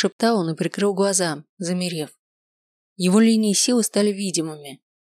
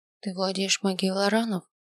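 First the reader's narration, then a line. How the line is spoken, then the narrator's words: Quiet question. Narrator (Russian): тихо спросил я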